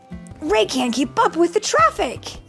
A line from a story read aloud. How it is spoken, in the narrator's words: exclaimed Rusty